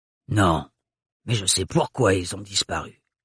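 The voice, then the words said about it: Strongly marked accent. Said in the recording (French): “prononcée avec son accent très caractérisé”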